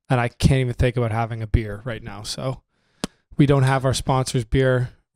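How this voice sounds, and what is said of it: Weak, nearly lost voice. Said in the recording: “I barely have a voice... I lost it completely on the trip... it's just coming back right now”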